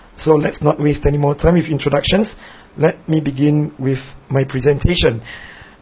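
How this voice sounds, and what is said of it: Singaporean English accent. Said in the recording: “my accent is a little queer, well, that's because I'm not from England or from America or Australia ... I'm from this little tiny island country called Singapore”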